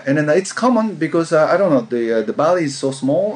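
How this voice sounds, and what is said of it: Speaks with a foreign accent. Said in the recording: “my accent”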